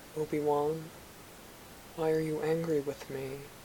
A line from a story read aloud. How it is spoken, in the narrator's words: He said in a soft voice